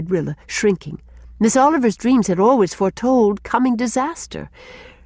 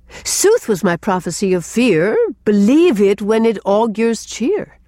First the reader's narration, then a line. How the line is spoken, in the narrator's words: quoted Gertrude, almost gaily